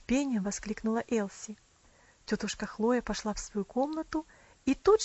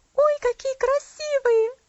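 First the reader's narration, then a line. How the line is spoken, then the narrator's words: Exclaiming. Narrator (Russian): воскликнула она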